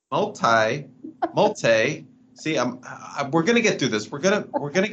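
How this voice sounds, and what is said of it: Slight put-on accent. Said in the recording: “Little accent coming in now. You got a little accent now.”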